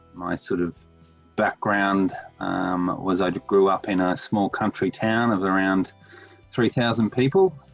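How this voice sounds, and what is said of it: Australian accent. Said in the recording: “that accent. ... I'm based in Sydney, Australia”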